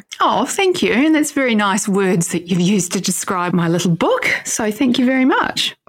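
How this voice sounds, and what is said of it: New Zealand accent. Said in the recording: “listeners may hear your accent... grew up in New Zealand. She currently lives in Australia.”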